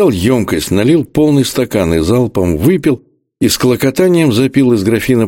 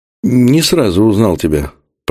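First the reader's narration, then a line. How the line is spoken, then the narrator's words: Mumbled. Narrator (Russian): промямлил я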